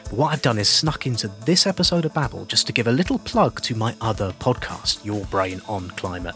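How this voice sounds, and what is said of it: Whispering. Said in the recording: “And I'm whispering”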